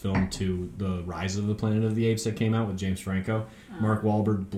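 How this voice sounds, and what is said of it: Usual voice. Nothing is said of it.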